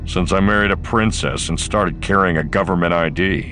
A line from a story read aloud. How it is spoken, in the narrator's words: Han growled back